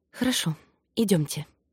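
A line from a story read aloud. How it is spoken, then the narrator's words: Whisper. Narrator (Russian): Кари все же прошептала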